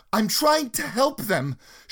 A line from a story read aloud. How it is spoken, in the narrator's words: she screamed back